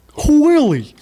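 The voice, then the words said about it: Imitates the sitcom puppet Alf. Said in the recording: “I can do a pretty great Alf impersonation. ... That was really good. ... He killed it, dude.”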